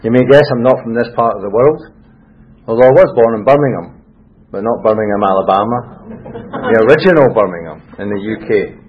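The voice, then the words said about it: Scottish accent. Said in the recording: “This is a Scottish accent”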